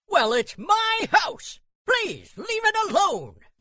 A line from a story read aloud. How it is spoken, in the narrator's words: yelled the fairy